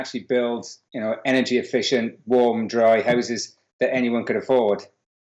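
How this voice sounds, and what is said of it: Slight Welsh accent. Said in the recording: “You've got a bit of an accent. ... originally from Wales.”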